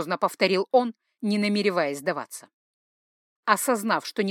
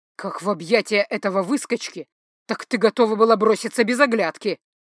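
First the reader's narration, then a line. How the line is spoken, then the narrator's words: Through gritted teeth. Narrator (Russian): процедил он сквозь зубы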